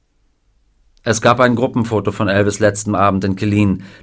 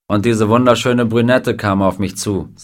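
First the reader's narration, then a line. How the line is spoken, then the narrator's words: Plain. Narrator (German): sagte Klein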